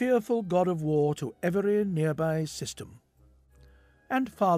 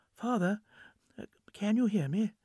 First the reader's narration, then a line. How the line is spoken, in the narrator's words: asked tenderly